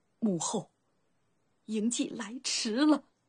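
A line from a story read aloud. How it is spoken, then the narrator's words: Choked sob. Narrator (Chinese): 嬴稷……面色苍白，一声哽咽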